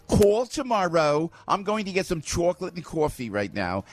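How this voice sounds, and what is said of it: New Jersey accent. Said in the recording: “Look at my Jersey accent. ... In my Jersey accent,”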